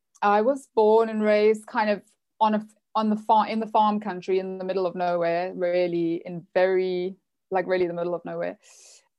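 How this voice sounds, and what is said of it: South African accent. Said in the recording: “just in case people can't figure out the accent, I'm from South Africa”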